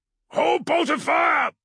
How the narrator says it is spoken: he bellowed at his warriors

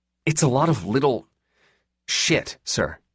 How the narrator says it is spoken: Lee snapped

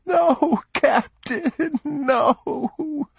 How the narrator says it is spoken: the boy whimpered piteously

